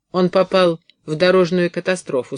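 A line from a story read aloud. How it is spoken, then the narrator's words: Indifferent voice. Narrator (Russian): сказал безразличным голосом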